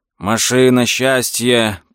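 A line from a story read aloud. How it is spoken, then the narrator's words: Hoarse rasp. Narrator (Russian): прохрипел Лео Ауфман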